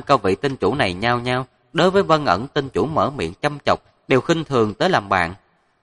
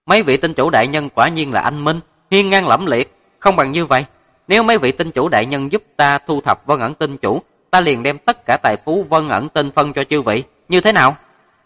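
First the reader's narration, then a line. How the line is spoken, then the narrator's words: Calm, faintly smiling. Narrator (Vietnamese): Diệp Thần nhàn nhạt mỉm cười nói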